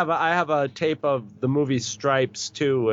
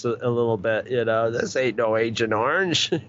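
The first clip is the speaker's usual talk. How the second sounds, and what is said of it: Imitates another person's voice. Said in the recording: “kind of in a Murray Clawhammer voice”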